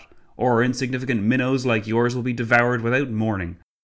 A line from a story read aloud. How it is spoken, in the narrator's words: Clavel spat